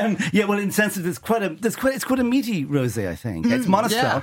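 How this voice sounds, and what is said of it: Usual voice. Nothing is said of it.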